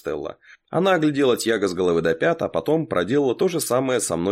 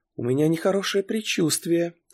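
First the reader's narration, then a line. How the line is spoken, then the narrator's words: Soft. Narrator (Russian): тихонько сказала Ава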